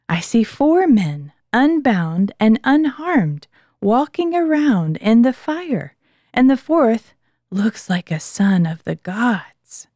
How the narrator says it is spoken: exclaimed

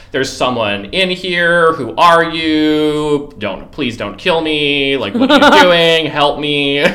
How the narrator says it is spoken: screaming in the middle of the night

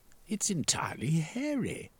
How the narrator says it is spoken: he exclaimed

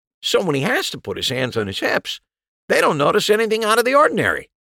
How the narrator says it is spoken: Wright said brightly

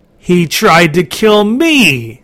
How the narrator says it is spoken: screeched the creature

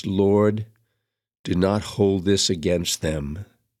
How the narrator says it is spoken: cried out in a loud voice

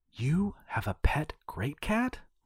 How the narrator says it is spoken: Cassandra exclaimed

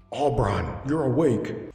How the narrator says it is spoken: Kalantar exclaimed

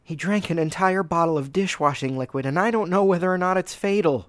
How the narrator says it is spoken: she said urgently

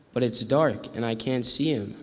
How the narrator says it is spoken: Owl says

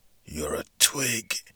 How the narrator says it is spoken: she whispered in his ear

